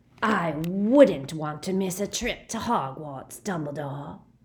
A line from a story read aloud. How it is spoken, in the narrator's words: rasped Greyback